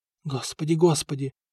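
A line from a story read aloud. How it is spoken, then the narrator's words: Breathless hurried whisper. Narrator (Russian): шептала Нантильда, которая почти бежала в свои покои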